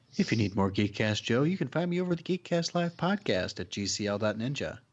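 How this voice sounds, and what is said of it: Smooth NPR-style radio announcer voice. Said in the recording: “Brought my NPR voice for that one... It was like AM radio quality.”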